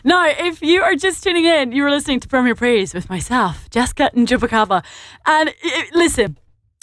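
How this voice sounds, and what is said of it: Scottish accent. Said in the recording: “my very Scottish accent. So I hope you all understand me.”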